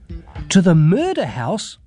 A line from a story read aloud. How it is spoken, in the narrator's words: exclaimed Lisa